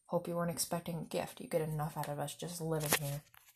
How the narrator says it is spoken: Vernon muttered

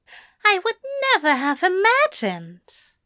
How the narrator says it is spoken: Aziraphale exclaimed

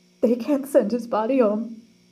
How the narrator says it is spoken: moaned her mother

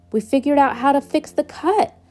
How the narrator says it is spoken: I shouted across the yard to them

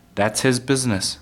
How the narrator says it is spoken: Father said

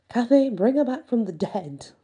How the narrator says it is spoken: laughed Karen

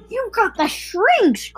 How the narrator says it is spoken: cried Mr

